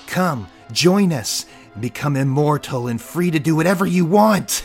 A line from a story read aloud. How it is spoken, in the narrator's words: shouted Amanda